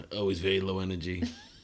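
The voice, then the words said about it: Imitates another person's voice. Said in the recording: “Good Trump impression”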